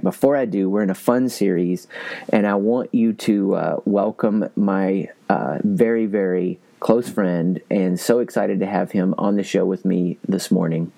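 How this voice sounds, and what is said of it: Voice sounds a little different. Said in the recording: “my voice may sound a little bit different because I was screaming at a concert last night”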